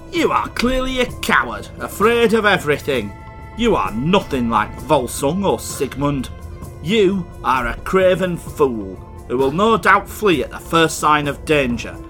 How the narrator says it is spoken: Regin chuckled and said

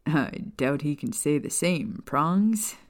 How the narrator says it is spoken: Sirius chuckled

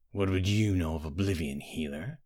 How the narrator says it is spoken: growled, but her voice was calmer, quieter

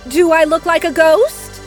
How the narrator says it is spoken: Inez asked eagerly

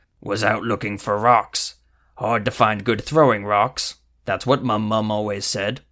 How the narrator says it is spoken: Wullabog spat and said

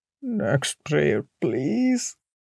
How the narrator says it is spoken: Bhaiya mumbled

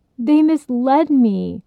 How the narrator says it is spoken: woodcutter cried

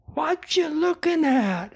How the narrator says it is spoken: Alex yelled at us

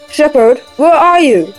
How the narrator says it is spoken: The wounded giant called out

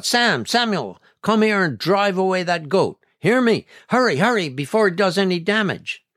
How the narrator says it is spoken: She shouted out

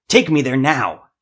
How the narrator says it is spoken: Jeremiah shouted

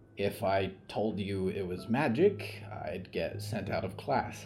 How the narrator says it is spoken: Olivier sighed

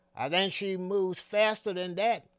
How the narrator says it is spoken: he yelled back at me

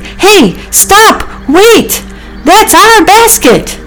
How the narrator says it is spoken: They were all shouting

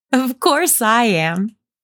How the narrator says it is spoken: cried Meg

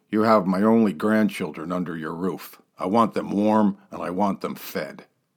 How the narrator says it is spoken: The ancient embalmer, as tight with a buck as a Highland clergyman, grumbled

